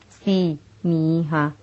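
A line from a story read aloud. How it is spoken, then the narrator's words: Plain. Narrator (Spanish): Él dijo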